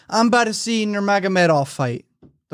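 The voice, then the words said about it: Slurred, drunk-sounding voice. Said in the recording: “you said it like he had a drunk accent”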